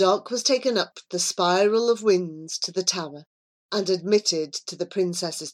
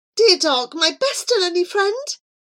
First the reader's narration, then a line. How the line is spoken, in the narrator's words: she cried